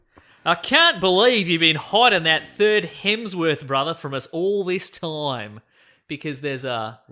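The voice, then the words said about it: Put-on Australian accent. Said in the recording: “he's written it in what I'm going to assume is offensive Australian accent ... I'll do it in Australian accent”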